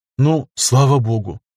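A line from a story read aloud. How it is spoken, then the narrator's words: Relieved exhale. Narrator (Russian): выдохнула, не найдя пугающих до дрожи в коленях защитных устройств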